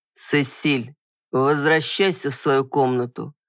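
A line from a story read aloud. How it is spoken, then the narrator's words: Commanding man's voice. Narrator (Russian): голосом, нетерпящим возражений, произнес мужчина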